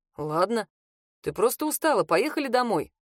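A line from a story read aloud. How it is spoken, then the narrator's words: Calm. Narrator (Russian): спокойно отреагировал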